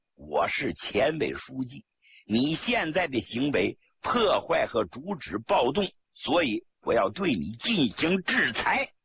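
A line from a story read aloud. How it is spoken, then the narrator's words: Cold sneer. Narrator (Chinese): 周恩来冷笑了一声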